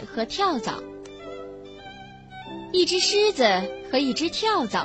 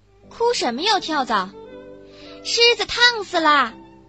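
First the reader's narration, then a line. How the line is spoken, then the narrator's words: Creaking door cry. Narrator (Chinese): 房门也跟着嘎嘎嘎叫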